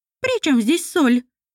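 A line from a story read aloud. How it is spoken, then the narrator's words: Loud shout, deaf speaker. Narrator (Russian): крикнул глухой Мамондик из-за кляпа в ушах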